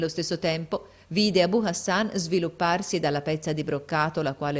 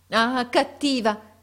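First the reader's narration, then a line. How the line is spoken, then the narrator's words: Woman exclaiming. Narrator (Italian): esclamò essa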